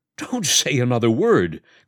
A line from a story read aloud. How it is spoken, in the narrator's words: cried the doctor